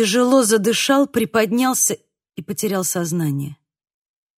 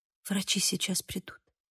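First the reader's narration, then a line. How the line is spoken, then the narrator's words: Whisper. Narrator (Russian): прошептала она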